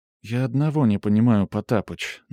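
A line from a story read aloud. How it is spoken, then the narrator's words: Timid. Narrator (Russian): начала робко Хеся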